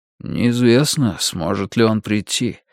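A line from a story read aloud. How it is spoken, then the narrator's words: Soft reply. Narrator (Russian): тихонько ответил Йоханнес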